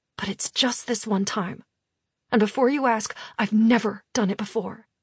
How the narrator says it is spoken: Vivi tells me under her breath

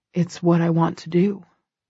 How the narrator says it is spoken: he says quietly

